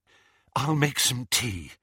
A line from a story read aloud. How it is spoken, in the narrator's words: said Hermione breathlessly